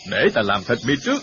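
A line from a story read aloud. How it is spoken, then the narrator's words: Shouting. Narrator (Vietnamese): hắn tự thứ hai quát lên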